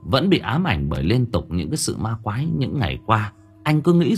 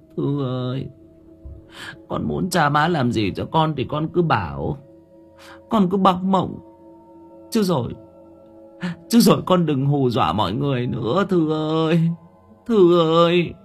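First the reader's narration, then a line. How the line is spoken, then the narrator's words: Tearful, sobbing woman. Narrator (Vietnamese): Bà Hoa lúc này mếu máo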